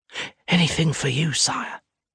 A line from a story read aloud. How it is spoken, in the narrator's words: she whispers, with clear adoration